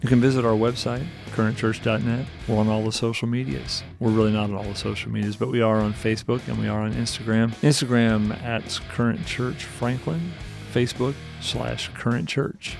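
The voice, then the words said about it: Radio announcer voice. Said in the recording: “This is my best radio voice.”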